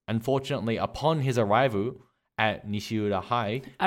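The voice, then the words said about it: Japanese-accented pronunciation of English. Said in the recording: “You sounded Japanese, like the Japanese accent.”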